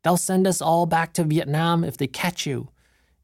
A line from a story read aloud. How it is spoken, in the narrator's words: she yelled